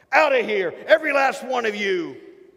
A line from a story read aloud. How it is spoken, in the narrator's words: raised his voice and he shouted